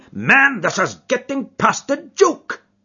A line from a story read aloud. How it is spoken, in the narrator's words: cried MacDonald, rising angrily from his chair